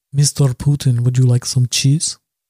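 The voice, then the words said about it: Put-on French accent sounding Russian. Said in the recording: “I don't know why my French sounds like Russian. ... That was my impersonation of a French man doing a Russian accent.”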